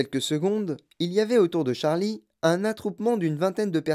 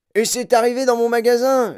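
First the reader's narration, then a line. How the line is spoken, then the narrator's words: Yelled. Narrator (French): hurla-t-il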